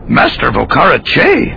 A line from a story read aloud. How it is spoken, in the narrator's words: Yoda said loudly